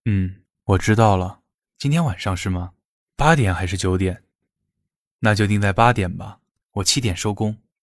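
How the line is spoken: Low-voiced reply. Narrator (Chinese): 他低声应道

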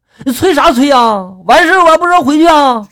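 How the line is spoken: Drunken shout. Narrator (Chinese): 我当时借着酒劲儿嘛，我就大喊了

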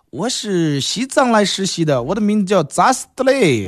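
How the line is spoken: Awkward laughing nurse. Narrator (Chinese): 护士尴尬笑笑

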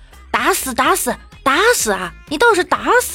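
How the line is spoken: Rough loud shout. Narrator (Chinese): 一个粗犷的声音在喊

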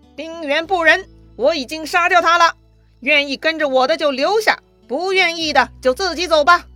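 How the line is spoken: Shouted. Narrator (Chinese): 他就对着左右的人大喊

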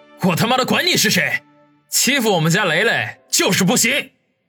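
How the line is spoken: Roaring. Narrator (Chinese): 黄雅琴咆哮着

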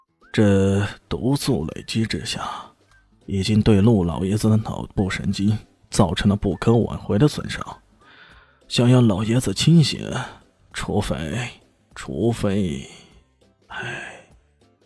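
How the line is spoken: Sighing. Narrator (Chinese): 郭培林叹了口气

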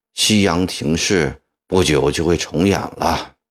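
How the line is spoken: Weary sigh, feeble. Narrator (Chinese): 曾国藩长叹一口气，无力地说

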